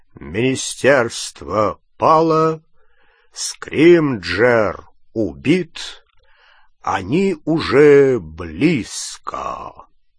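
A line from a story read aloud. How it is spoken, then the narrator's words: Loud low drawling voice. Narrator (Russian): Патронус громким, низким, тягучим голосом Кингсли Бруствера сообщил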